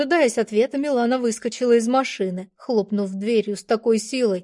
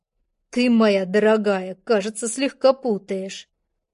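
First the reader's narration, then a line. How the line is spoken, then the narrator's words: Through gritted teeth. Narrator (Russian): процедил я сквозь зубы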